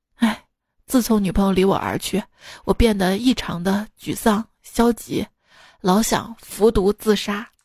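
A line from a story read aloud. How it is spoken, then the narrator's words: Sighing. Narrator (Chinese): 小黑叹着气说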